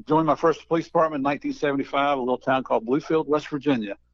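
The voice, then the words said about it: Southern Appalachian American accent. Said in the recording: “I'm kind of a cross between a redneck and a hillbilly, which explains my accent”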